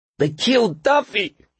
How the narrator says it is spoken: cried

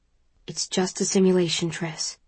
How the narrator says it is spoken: Four says quietly

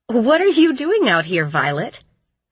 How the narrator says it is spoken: she asked

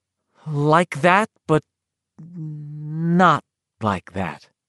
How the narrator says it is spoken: Ben said slowly

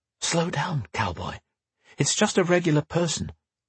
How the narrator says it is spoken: whispered in his ear

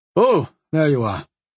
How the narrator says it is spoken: the wizard announced

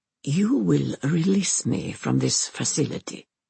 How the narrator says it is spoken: she says

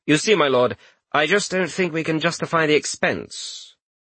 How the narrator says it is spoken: He loudly said

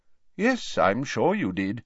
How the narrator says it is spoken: said Dumbledore calmly

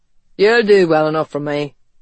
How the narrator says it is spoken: he said gruffly

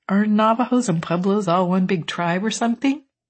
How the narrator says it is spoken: Lloyd laughed rather hysterically

